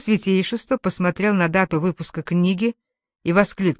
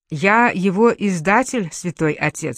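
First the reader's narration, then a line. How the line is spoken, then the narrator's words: Plain. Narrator (Russian): сказал я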